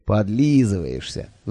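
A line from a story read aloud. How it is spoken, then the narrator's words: Sighing. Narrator (Russian): вздохнул я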